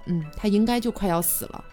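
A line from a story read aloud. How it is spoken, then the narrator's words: Sighing uncle. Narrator (Chinese): 叔叔就叹息说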